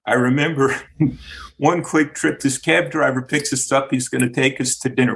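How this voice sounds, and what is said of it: New York-influenced American accent. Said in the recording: “growing up in Miami, raised by New Yorkers, that's where I get the strange accent.”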